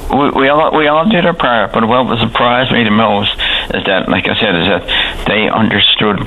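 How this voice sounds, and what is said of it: Strange Newfoundland townie accent. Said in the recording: “I'm a townie. I mean, with a strange townie accent”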